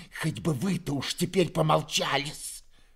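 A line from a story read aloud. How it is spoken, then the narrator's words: Hiss. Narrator (Russian): прошипела Перепелицына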